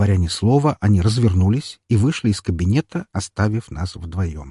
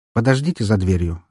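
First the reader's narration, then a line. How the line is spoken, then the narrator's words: Calm. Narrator (Russian): спокойно произнес я им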